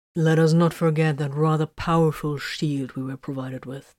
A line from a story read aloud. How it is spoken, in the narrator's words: Titus pointed out dryly